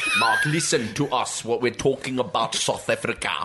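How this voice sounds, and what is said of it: Put-on South African accent. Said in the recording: “We're from Johannesburg. ... I'm losing the accent.”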